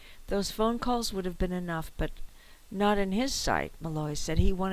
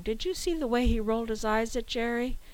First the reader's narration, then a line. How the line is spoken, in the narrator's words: recalled as the audience's laughter escalated